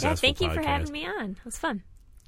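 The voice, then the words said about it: Put-on character voice. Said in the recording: “I was doing a voice. That was my character that I pulled in. ... This is my voice, though. ... now this is my real voice.”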